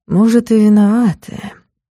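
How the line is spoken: Quiet drawl. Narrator (Russian): протянул тихо

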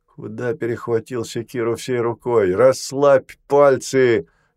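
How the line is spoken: Stern command. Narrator (Russian): велел он грозно

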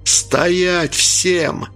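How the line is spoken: Hoarse, straining shout. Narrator (Russian): в третий раз закричал Анатолий, срывая голос

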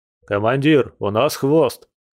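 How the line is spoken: Hoarse report. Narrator (Russian): хрипло доложил Игорек

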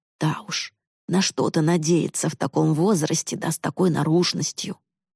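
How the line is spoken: Mother hissing. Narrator (Russian): Мама прошипела

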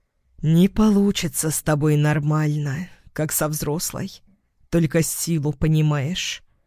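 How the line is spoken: Hoarse whisper. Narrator (Russian): сипло шепчет

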